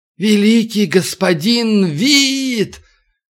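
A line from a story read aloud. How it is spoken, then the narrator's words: Soft meowing yell. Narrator (Russian): Ближайший к нему монах проорал мягким, мяукающим голосом клич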